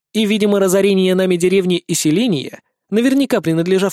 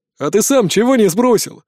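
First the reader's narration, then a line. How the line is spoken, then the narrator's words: Mocking reply. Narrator (Russian): Насмешливо отозвался древень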